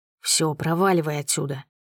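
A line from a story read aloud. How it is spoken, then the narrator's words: Whispered command. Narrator (Russian): шепотом велит Каверин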